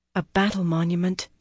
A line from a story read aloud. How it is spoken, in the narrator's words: she murmured